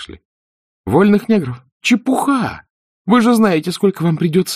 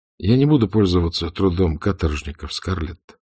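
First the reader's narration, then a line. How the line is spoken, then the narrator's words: Calm. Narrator (Russian): спокойно сказал Эшли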